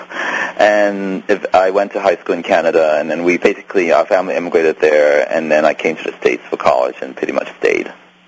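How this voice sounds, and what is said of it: Hong Kong English accent. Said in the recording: “I grew up in Hong Kong, hence my accent”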